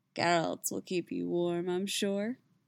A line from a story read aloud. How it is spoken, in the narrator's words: he purred